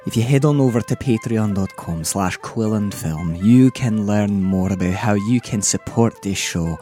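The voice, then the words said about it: Put-on Scottish accent. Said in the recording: “thank you profusely now in a Scottish accent”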